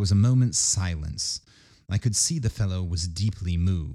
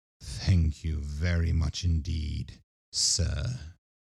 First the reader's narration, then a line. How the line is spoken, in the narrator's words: said in a low voice